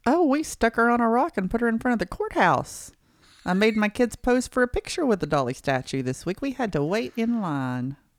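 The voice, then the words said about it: Southern American accent. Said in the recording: “Wow, that sounded Southern, didn't it? ... It did.”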